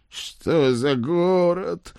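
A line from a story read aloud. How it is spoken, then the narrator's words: Exhausted group howl. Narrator (Russian): взвыли измученные хозяева лысого леса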